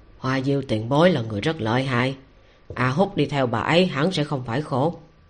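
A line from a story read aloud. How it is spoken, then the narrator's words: Low, quiet voice. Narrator (Vietnamese): Quản sự kia coi như có tư lịch, nghe vậy thì cũng nhìn, thấy chỉ có mấy tiểu quỷ vây quanh mình thì mới nhỏ giọng nói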